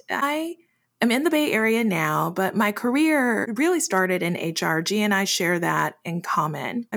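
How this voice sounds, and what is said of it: Midwest and Southern American accent. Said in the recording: “you will see my voice slide between a Midwest and a Southern accent.”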